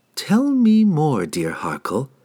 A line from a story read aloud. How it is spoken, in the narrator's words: Sydney purred enticingly